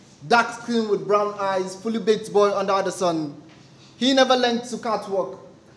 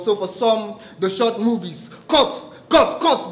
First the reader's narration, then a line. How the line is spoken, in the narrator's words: the director yelled